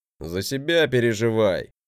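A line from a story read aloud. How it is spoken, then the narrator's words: Grumble. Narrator (Russian): проворчал он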